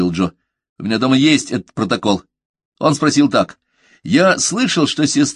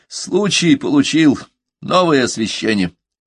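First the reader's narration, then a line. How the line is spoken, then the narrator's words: Tired statement. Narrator (Russian): устало сообщил прокурор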